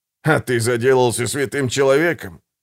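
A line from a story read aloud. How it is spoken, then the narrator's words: Snort. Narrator (Russian): фыркнул Гегель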